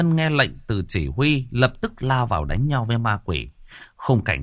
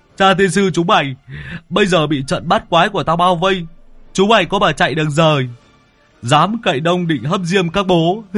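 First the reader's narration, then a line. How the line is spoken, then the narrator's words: Loud laughter. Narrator (Vietnamese): lão Tứ cười lớn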